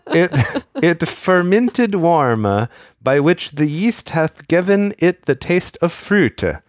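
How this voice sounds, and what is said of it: Archaic Tyndale-style mock accent. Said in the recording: “the like little accent that you have on when you do the Tyndale's like speak”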